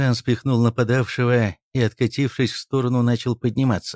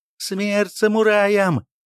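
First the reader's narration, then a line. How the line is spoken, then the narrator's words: Yell. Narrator (Russian): завопил мужик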